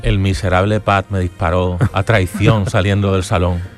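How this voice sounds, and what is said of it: Eerie voice from beyond the grave. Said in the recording (Spanish): “esa voz de ultratumba”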